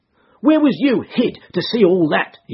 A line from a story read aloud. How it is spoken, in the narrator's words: cried